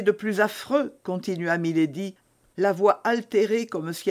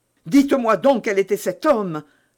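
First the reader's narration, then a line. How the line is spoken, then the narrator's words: Exclaiming young man. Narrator (French): s'écria le jeune officier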